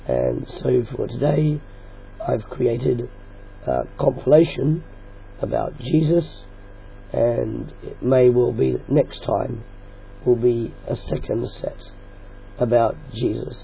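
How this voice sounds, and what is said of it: Strained, uncooperative voice. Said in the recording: “You'll hear by the sound of my voice that my voice is deciding not to cooperate with me”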